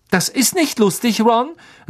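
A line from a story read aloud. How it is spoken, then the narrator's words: Sharp. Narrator (German): sagte Hermine scharf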